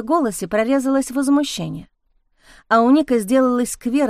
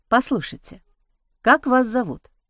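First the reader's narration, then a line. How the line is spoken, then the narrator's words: Soft question. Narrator (Russian): спросил он мягко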